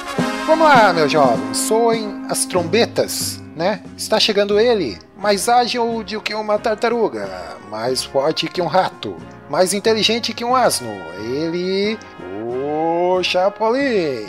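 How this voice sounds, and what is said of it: Imitates a TV show opening announcer. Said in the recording (Portuguese): “tô imitando a abertura, cara, do Chapolin”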